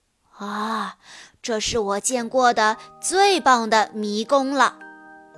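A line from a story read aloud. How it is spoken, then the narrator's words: Admiring exclamation. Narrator (Chinese): 古威市长感叹道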